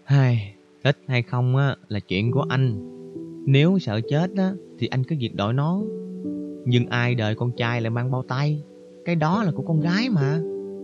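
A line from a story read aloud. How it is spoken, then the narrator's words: Sighing woman. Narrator (Vietnamese): Cô thở dài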